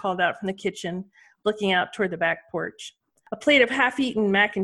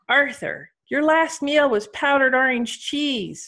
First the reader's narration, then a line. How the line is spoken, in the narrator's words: she called out